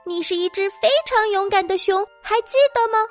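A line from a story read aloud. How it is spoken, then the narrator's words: Soft singing. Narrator (Chinese): 他开始小声的唱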